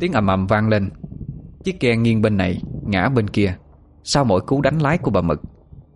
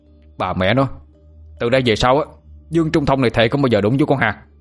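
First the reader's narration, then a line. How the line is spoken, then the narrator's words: Shouting. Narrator (Vietnamese): Anh Thông quát lên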